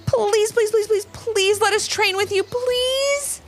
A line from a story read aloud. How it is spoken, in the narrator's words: pleaded Levi and Ivy